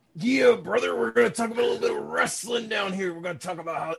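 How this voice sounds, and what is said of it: Bad gravelly Macho Man impression. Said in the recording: “oh, man, that hurts my throat. sorry, that was my horrible Macho Man impression.”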